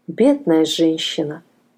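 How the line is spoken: Sighing. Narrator (Russian): вздохнула она

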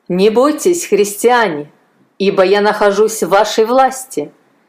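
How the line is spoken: Loud speech. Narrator (Russian): громко произнес Марцелл

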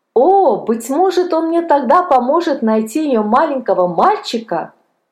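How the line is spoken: Joyful exclamation. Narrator (Russian): Палка радостно воскликнул

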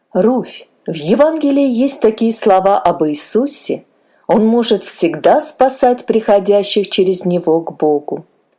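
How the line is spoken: Plain. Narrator (Russian): сказал мистер Робинсон

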